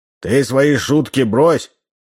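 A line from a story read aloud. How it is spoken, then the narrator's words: Stern. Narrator (Russian): строго сказал Удалов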